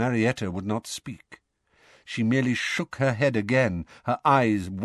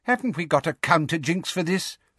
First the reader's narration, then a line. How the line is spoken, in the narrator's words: Fudge asked Umbridge impatiently